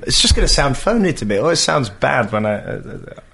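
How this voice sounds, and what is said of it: His natural real accent. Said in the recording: “let's hear the real accent ... We're starting to hear it. It's coming through.”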